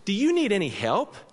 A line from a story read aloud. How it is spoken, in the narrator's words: she asked brightly